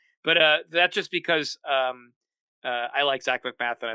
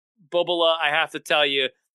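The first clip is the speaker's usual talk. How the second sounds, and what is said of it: New York Jewish accent, Janice impression. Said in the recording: “it's a New York Jewish accent ... Jewish mother from Long Island is basically, from Brooklyn ... Your impression of Janice from Friends”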